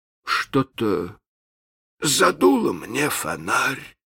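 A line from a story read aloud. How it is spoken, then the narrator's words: Uncertain. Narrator (Russian): произнес он неуверенно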